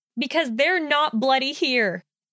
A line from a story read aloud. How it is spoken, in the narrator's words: Hermione blurted